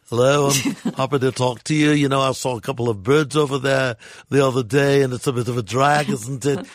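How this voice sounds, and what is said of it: Put-on Liverpudlian English accent. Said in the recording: “Now I'm going to go over to more of a Liverpudlian accent. ... I went from a posh Brit to a Liverpudlian. ... I thought it was brilliant, and I think you're very good at doing that. ... then you went to Liverpudlian.”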